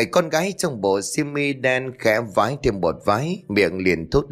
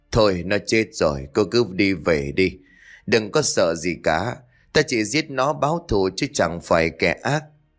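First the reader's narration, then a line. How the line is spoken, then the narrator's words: Sighing. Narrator (Vietnamese): Sơ thở dài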